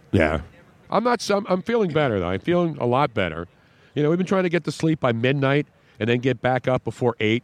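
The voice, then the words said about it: Slightly hoarse, congested voice. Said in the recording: “Does my voice sound hoarse? ... It sounds a little congested.”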